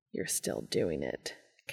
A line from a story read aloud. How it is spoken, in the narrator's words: Cass grumbled, feeling his cheeks go pink